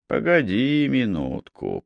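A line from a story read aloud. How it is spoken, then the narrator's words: Muttering under breath. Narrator (Russian): пробормотал себе под нос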